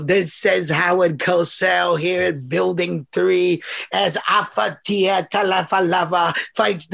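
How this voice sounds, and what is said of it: Howard Cosell boxing commentary impression. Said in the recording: “I used to impersonate Howard Cosell ... Howard Cosell doing a boxing match”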